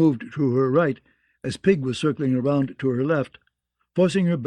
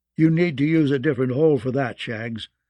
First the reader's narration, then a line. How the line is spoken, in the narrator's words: said Timian in his Dornish drawl